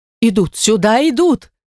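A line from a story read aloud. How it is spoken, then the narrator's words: Shouted. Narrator (Russian): крикнула госпожа Монтони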